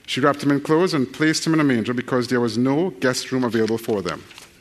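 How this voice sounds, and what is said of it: Very fast reading with an accent. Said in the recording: “read that really quickly ... your brains were actually adjusting to my accent”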